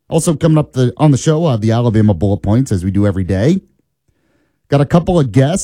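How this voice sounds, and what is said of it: Voice still recovering from illness. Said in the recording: “My voice is still recovering, as you can tell from whatever I had over the weekend.”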